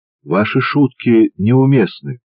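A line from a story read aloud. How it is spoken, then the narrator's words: Calm commander's voice. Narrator (Russian): спокойно произнес командир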